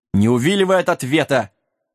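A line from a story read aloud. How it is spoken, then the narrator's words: Stern shout. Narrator (Russian): строго крикнул пес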